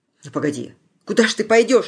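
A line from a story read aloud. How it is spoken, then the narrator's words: Frightened question. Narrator (Russian): испуганно спросил Василий, словно только теперь понял, что произошло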